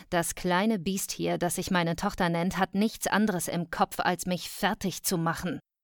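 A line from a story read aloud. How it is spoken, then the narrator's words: Mother hissing. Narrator (German): zischte meine Mutter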